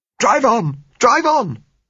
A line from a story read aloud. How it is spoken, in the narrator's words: said Gisella hysterically